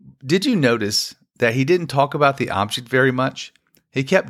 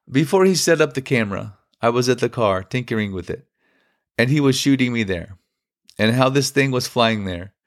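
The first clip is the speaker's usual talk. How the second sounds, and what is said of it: Rough put-on Polish accent. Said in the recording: “I know this guy's Polish. I don't know what a Polish accent sounds like. It just sounded like that in my head ... I'm sorry if it hurt your ears.”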